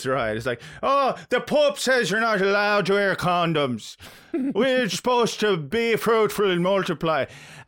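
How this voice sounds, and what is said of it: Put-on Irish accent. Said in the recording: “am I doing a good Irish accent?”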